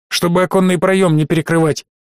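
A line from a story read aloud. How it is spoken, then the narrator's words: Commanding tone. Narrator (Russian): приказным тоном велел Гудрон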